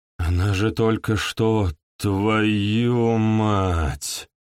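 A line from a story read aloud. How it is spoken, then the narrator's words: Groaning. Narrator (Russian): простонал чашка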